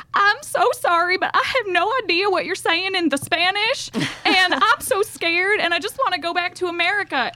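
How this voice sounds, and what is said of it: Exaggerated put-on Southern accent. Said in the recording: “I put on the most Southern accent that I could muster.”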